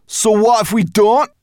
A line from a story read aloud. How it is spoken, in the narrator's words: added crossly